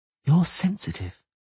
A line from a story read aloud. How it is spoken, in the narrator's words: she said softly